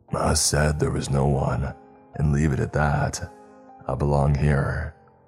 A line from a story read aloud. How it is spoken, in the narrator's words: the old man growled